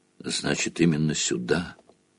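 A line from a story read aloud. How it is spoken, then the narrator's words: Whisper. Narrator (Russian): прошептала профессор МакГонагалл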